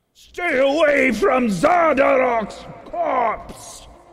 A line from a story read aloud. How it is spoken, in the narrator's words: This one over here probably yells